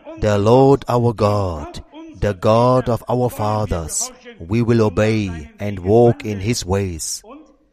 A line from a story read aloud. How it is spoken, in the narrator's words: they solemnly declared